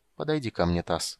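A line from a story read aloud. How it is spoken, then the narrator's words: Soft voice. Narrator (Russian): мягко сказал маг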